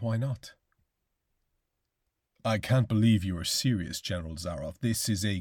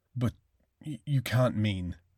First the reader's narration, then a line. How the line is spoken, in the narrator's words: gasped Rainsford